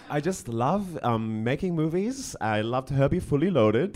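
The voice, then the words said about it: Strong put-on European accent. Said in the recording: “Have you heard that accent? It's strong. It's a strong accent. ... she's European”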